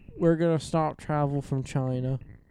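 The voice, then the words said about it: Poor imitation of another person's voice. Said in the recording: “That was a terrible Trump impression.”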